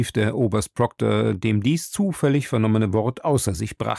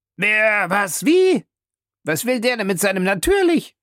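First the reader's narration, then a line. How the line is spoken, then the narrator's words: Many voices calling. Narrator (German): rief man von allen Seiten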